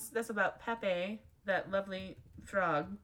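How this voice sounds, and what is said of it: Sarcastic delivery. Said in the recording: “That was sarcasm, by the way.”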